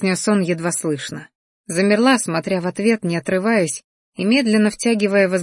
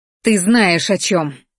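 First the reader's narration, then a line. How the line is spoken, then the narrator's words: Barked. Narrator (Russian): рявкнула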